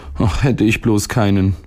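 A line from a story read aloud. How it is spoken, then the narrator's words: Sighing boy. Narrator (German): seufzte der Junge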